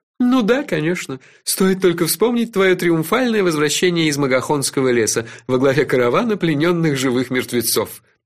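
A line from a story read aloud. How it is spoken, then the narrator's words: Laughing. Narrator (Russian): рассмеялся Кофа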